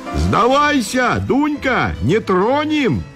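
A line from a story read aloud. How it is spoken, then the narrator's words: Crowd shouting, coaxing. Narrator (Russian): кричали осаждающие, думая покорить ее льстивыми словами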